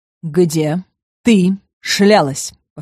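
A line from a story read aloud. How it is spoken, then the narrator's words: Repeated with hint of growl. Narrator (Russian): повторил Август, и в голосе появился намек на рычание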